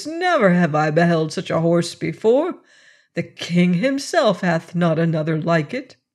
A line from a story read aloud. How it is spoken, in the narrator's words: cried Boots